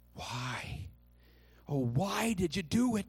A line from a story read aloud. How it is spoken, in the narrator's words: they groaned